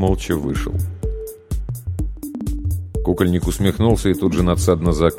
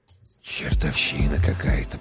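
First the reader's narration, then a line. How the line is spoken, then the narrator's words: Whispered. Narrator (Russian): прошептал Прохор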